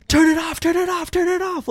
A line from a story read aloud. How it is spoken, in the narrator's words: Like screaming